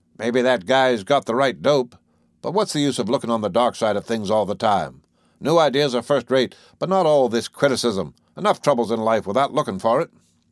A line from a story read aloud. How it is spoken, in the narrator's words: the audience grumbled